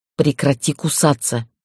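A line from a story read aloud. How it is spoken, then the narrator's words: Hissed. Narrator (Russian): прошипела я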